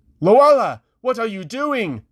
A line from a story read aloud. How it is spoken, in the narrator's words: Kyral shouted